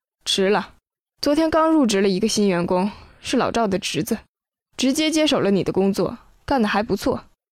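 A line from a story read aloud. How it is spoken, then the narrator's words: Sighing. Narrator (Chinese): 经理叹了口气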